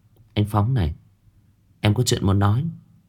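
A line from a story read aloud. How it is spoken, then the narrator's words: Soft speech. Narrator (Vietnamese): cô chỉ khẽ nói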